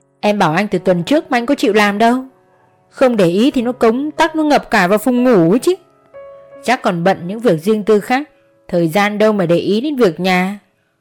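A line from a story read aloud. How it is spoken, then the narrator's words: Sarcastic. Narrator (Vietnamese): Hạnh mỉa mai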